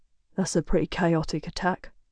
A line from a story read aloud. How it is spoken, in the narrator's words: Griffin mutters